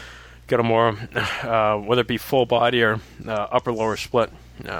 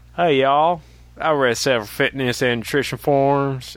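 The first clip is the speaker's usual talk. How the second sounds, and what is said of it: Put-on Southern US accent. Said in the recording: “Should I do this in a southern accent because it says, hey, y'all?”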